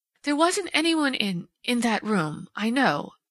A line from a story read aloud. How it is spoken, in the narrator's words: she faltered